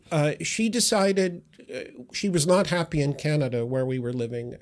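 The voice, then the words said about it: Noticeable non-London accent. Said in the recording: “despite your accent”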